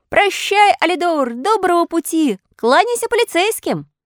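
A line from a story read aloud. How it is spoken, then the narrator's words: Shouting from a distance. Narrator (Russian): Отплыв от берега, он закричал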